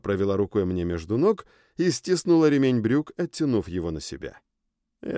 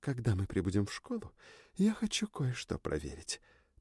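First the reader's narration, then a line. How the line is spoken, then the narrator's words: Whispered. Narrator (Russian): прошептала она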